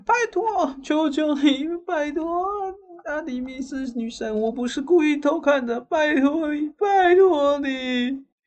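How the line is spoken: Crying and pleading. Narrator (Chinese): 阿克泰翁呢就一直哭喊

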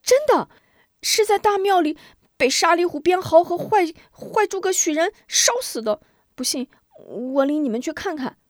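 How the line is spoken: Clamoring children. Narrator (Chinese): 孩子们又是一阵乱嚷

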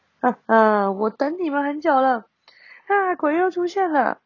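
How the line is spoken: Cold sneering laugh. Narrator (Chinese): 表演厅里传出一阵冷笑声

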